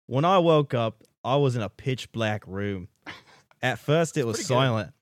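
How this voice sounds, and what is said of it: Put-on Australian accent. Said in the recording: “I'm going to botch the Australian accent”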